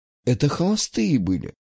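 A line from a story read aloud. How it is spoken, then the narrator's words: Quiet. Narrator (Russian): тихо сказала Маргарита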